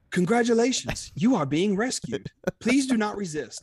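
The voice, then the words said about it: Put-on British accent, robotic. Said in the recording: “put on my British accent ... That was a little too C-3PO-ish.”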